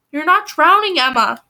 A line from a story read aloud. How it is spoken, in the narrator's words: Mother yelled